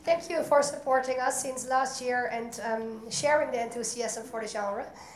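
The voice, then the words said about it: Hoarse, strained voice. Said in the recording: “I lost my voice,”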